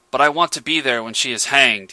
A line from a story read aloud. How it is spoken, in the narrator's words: he snapped